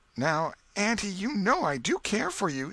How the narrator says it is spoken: said Tom

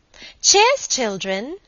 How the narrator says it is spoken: cried Helen

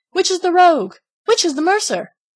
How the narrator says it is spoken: cried out as they went

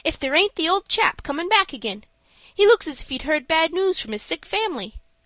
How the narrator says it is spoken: he exclaimed suddenly

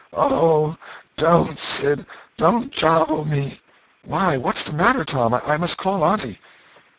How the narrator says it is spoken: Tom moaned out

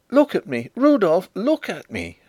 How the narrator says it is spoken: she cried

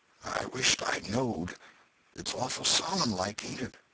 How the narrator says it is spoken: Huckleberry whispered

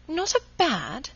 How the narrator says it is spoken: she exclaimed

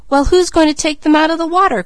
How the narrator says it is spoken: cried Malcolm

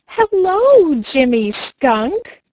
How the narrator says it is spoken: cried Chatterer the Red Squirrel

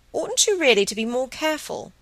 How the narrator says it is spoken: Margaret laughed, though her thoughts still strayed after Helen

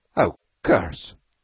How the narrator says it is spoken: said Beetle uneasily

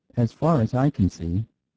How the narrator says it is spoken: said Mr

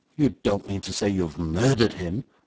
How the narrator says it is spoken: asked Sir George in an awed whisper

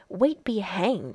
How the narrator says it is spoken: snarled the other

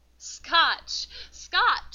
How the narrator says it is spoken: cried Paulina

